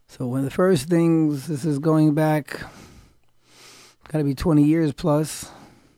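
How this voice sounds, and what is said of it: Hoarse voice. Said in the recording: “My voice is a little hoarse today”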